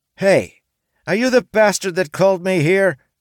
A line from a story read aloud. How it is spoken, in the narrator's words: she cried with anger in her eyes